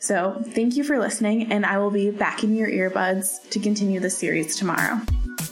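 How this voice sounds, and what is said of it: Excited, upbeat voice. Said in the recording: “If you can't hear it in my voice, I'm super excited.”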